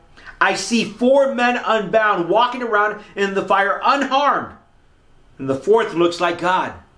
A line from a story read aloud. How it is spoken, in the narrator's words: Nebuchadnezzar shouted